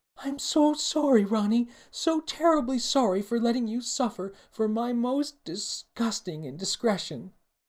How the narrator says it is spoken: Osteria wailed

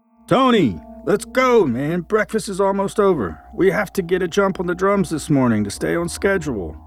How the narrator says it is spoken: yelled at the door loud enough for it to permeate into the room

